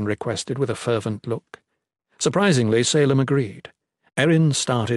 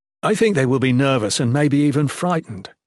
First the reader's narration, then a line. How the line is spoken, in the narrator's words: Jen commented to Fenner